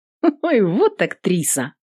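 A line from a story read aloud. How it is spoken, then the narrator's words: Laughing. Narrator (Russian): Рассмеялась воительница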